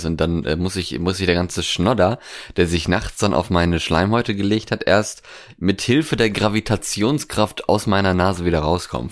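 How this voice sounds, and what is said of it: Congested, creaky morning voice. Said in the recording (German): “klingst du eigentlich ein bisschen verschnupft ... Ich klinge ein bisschen verschnupft, weil es noch so recht früh am Morgen ist ... meine Stimme noch den den morgendlichen Knarz drin hat”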